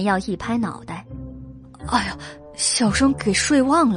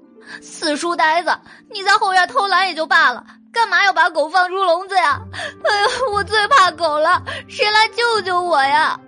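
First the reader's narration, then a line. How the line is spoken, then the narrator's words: Faint distant crying shout. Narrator (Chinese): 隐约听见黎奴在后院哭喊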